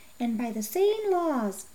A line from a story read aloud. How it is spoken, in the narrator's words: the old man murmured